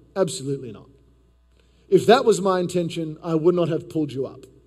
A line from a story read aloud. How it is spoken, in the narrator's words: Calmly, Socrates responded